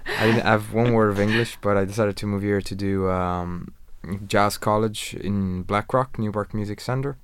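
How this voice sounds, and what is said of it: Irish-tinged accent. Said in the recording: “I'm getting the accent as well ... I like his accent ... I can really, really hear the Irish accent in you”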